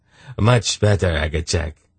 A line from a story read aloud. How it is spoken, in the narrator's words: Urgot said smoothly